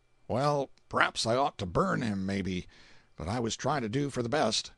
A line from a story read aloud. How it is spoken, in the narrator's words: Evidently he felt a twinge of conscience, a misgiving, and he said with a sigh